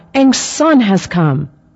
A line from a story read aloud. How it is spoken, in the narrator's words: My grandfather, who was normally quiet, called out with a big smile